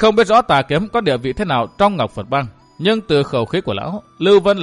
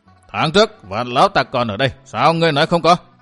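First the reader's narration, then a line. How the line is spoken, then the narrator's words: Angry bark. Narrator (Vietnamese): Sắc mặt xa sầm, Tà Kiếm quát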